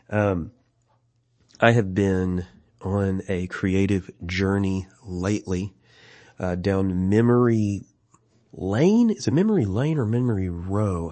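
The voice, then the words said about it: Lower, congested voice from illness. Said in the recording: “I've been a little bit sick. My voice is a little lower than normal ... I have had a number of days of congestion”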